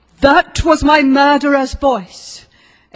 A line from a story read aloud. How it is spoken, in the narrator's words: exclaimed a terrible figure